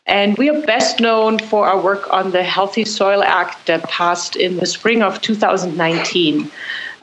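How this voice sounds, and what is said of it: Slight German accent. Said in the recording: “as you could probably hear, I have a little bit of an accent. So I was born in Germany”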